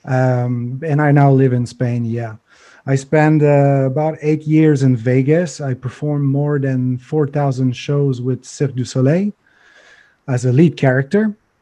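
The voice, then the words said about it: Non-native English accent, stray H sounds. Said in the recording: “this is where the $2 English accent is coming from. So you will see some random H everywhere”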